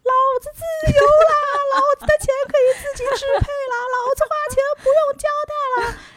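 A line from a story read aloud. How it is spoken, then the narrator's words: Exultant soul-deep cry. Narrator (Chinese): 整个灵魂在呼喊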